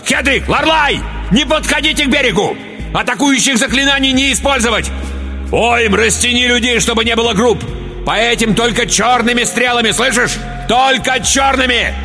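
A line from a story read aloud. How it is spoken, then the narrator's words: Yelled. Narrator (Russian): заорал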